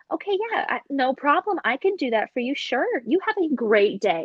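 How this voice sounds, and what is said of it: Polite customer service voice. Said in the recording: “my customer service voice”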